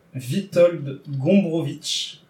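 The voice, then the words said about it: Attempted Polish accent pronunciation. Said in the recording (French): “vous excuserez mon accent polonais que je ne maîtrise pas”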